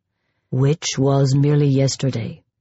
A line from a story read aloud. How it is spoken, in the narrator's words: murmured Guillaume, in true gallant French fashion